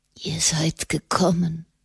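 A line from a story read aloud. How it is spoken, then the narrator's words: Whispered. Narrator (German): flüsterte er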